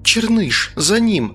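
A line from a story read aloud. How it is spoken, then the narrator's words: Exclaimed. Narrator (Russian): воскликнула моя спутница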